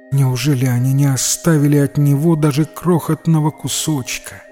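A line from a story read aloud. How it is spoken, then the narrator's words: Sad. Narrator (Russian): печально сказала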